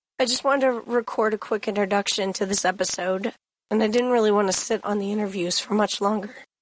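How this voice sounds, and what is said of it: Rough voice from a cold. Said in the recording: “my voice is pretty rough. I'm getting over a cold ... it's probably hard to listen to”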